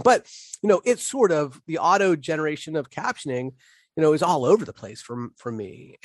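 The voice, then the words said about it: Slight Pittsburgh accent. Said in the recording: “a little bit of an accent ... my Pittsburgh accent”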